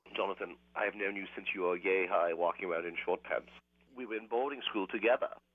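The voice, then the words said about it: Put-on posh British aristocrat accent. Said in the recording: “talking in this ridiculous accent ... British, ... but all the affect of a moneyed British aristocrat”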